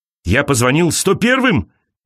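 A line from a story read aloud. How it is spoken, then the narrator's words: Shouting. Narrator (Russian): кричал он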